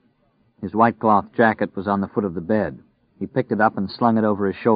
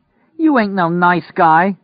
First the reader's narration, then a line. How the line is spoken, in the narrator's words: cried at him